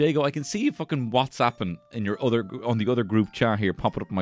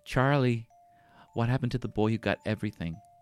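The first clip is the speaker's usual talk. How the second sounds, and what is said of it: Willy Wonka character voice. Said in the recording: “my Wonka impression.”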